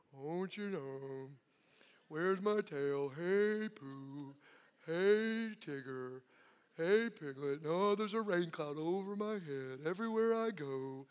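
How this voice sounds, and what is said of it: Imitates Eeyore's gloomy voice. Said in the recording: “that's my best impersonation of them both”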